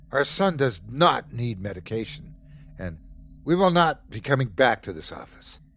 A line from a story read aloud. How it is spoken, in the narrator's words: They started yelling